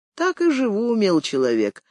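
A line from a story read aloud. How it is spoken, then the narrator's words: Calm little man affirming. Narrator (Russian): спокойно утвердил мужичонка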